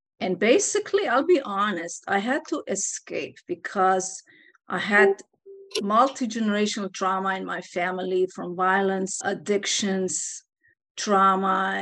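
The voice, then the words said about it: Slight Eastern European accent. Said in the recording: “I have a little accent. ... I'm actually from Eastern Europe”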